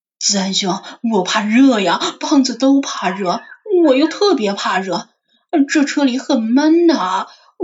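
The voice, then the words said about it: Hushed, pleading low voice. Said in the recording (Chinese): “压低声音祈求道”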